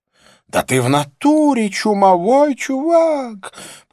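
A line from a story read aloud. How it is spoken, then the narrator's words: Panicked shriek. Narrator (Russian): провизжала Розанна голосом паникующего попугая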